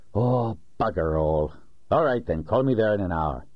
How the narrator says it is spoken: in a resigned voice said

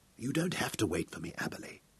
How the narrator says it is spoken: Hal whispered

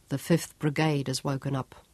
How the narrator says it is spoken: Sean muttered

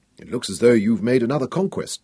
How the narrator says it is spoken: Nicholas told her dryly

